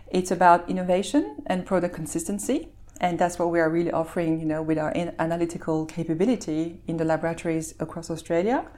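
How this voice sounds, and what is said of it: Belgian, mid-Atlantic-sounding accent. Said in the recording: “to our listeners who can hear your accent, you're obviously uh, not, an, not an Aussie. Um, you, are from Belgium ... That's why it's still mid-Atlantic”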